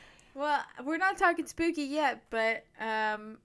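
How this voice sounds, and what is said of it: Usual voice. Nothing is said of it.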